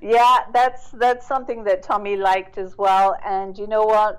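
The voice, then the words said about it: British accent. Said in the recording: “I love your accent... the British accent”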